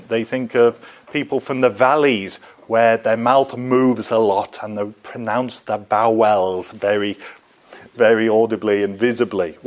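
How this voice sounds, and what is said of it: North Welsh accent. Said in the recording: “my vibrant Northwalian Welsh accent”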